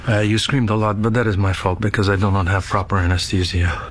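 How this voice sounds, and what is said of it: Put-on Russian accent. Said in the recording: “Sir Kenneth Branagh, yeah. Doing a Russian accent.”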